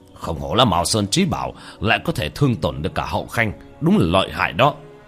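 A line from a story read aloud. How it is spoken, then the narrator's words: Cold sneering tone. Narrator (Vietnamese): Thiên Cơ Tử cười nhạt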